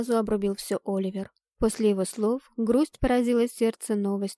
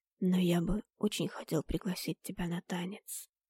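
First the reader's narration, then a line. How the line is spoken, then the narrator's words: Young man whispering behind. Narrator (Russian): прошептал юноша за моей спиной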